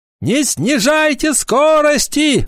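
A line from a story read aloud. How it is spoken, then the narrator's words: Shouting. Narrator (Russian): закричал он остальным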